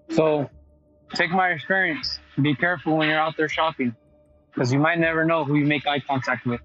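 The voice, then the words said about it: Shivering, shaky voice. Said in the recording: “you can even hear it in my voice, that's kind of shivering right now”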